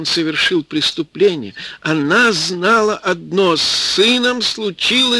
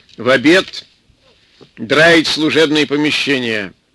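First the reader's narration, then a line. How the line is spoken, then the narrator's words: Stern. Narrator (Russian): строго сказал длинный милиционер старику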